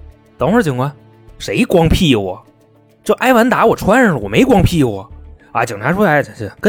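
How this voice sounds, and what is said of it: Usual voice. Nothing is said of it.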